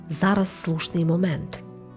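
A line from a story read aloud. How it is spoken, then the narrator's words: Quiet. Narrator (Ukrainian): Паула ... тихо мовила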